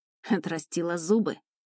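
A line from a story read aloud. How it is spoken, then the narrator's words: Snort. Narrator (Russian): хмыкнула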